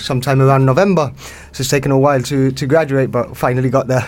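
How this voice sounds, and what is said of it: Gibraltarian accent, Welsh-Spanish mix. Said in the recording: “what a Gibraltarian accent's like, and I think we've finally got a real one here ... I always describe it as a mix between Welsh and Spanish”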